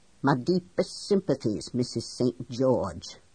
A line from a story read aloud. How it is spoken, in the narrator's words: McAuliffe says in that thick Scots accent of his